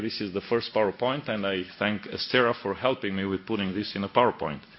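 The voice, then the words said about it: Noticeable accent. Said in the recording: “if my accent is not clear”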